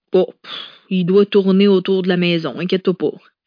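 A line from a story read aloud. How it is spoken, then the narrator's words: She sneered. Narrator (French): ricana-t-elle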